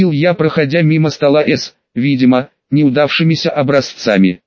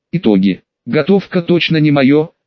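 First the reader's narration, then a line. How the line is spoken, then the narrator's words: Sad exhale. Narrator (Russian): грустно выдохнула Старк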